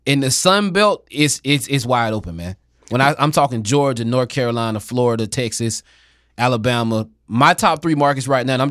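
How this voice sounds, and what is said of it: Southern American accent. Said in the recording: “I'm Southern, as you guys can tell with this accent.”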